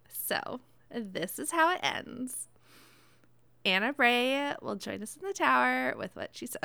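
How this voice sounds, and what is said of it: Valley Girl character voice. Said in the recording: “in my best Zavala voice ... Valley Girl Zavala”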